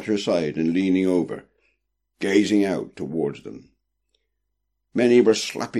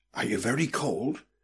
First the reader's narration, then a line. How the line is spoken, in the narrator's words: whispered Prudence